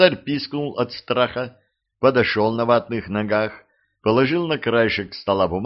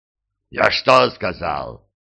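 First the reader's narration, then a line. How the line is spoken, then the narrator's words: Barked. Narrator (Russian): рявкнул он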